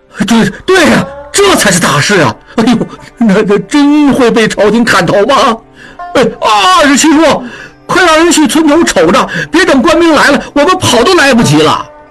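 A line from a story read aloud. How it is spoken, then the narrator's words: Crowd clamoring. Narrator (Chinese): 众人……嚷嚷道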